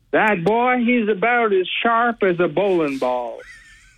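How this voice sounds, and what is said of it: Southern accent cartoon character voice. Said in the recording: “I'm not very good with my Southern accent, but I would like to paraphrase one of my favorite characters, Foghorn Leghorn.”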